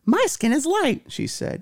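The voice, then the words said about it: Put-on character voice. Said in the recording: “I don't know why I gave her that voice.”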